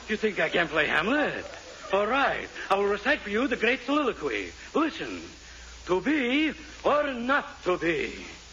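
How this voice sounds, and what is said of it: Phony put-on theatrical accent. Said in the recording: “you fake ... you take that pony accent with you”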